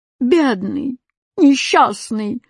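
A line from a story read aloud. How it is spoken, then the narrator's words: Moaning exclamation. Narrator (Russian): застонал восклицательный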